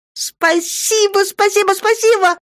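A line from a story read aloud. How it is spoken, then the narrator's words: Happy girl squealing. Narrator (Russian): завизжала счастливая девчонка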